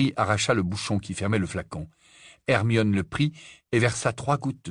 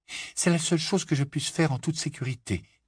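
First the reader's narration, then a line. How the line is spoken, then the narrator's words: Trembling voice. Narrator (French): dit Hermione d'une voix tremblante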